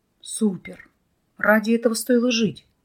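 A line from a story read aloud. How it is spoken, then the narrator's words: Breathless exclamation. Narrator (Russian): выдохнул Вадим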